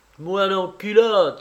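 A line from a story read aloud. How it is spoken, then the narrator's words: Boy exclaiming. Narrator (French): s'écria le gamin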